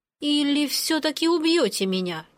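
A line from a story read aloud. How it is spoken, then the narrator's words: Uncertain suggestion. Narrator (Russian): неуверенно предположила я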